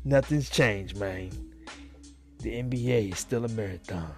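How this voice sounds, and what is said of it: Imitates another person's voice. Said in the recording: “That would be my best impersonation of that.”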